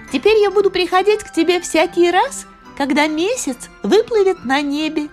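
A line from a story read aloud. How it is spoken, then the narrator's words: Cheerful, gentle fairy voice. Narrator (Russian): весело проговорила фея нежным своим голоском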